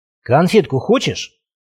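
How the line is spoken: Quiet goblin question. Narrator (Russian): тихо спросил гоблин

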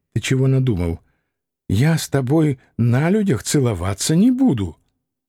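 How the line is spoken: Whispered. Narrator (Russian): Катя, шепотом добавив мне

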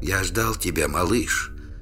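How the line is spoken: Barely audible whisper. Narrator (Russian): еле слышно прошептал Трувор

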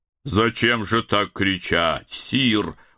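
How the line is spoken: Reproachful booming. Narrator (Russian): укоризненно прогудел он

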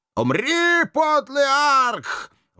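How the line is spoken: Witch howling. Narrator (Russian): взвыла последняя ведьма

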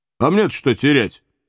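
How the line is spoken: Smirking grunt. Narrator (Russian): хмыкнул Иван

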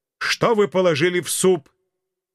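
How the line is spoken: Children yelling in unison. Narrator (Russian): Притихшие на мгновение дети дружно заорали

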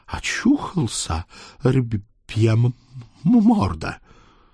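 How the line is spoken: Badly stuttering question. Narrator (Russian): страшно заикаясь, спросила

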